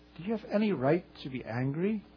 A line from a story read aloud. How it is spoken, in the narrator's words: God asked him gently